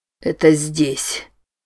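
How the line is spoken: Strained, forced out. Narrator (Russian): выдавил Норман

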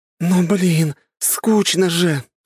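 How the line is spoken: Rueful sigh. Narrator (Russian): сокрушенно вздохнула лиса

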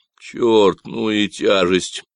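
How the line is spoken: Strained grumble. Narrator (Russian): проворчал Люк, натягивая веревку и выпрямляясь

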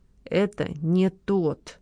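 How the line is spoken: Through clenched lips. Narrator (Russian): не разжимая губ, процедила Лола

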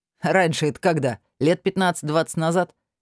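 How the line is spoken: Giggling. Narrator (Russian): хихикнул Артём

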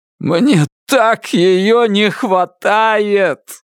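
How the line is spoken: Anguished shout broken by sob. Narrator (Russian): закричал он, и глубокий судорожно-болезненный вздох разорвал пополам его фразу

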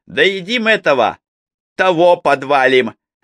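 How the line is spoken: Cheerful. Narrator (Russian): весело сказал Егорша

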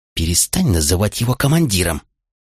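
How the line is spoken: Hissed, tall soldier. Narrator (Russian): прошипел самый рослый из рядовых

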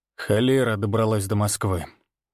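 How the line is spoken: Angry explanation, then sigh. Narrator (Russian): зло пояснил и вздохнул

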